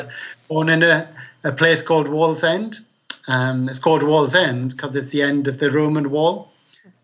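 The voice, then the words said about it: British Geordie accent. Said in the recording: “He's a British person... trying to pinpoint your accent... So I'm a Geordie, which is somebody who's born on Tyneside”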